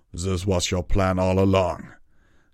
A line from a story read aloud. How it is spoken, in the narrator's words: Tirado growled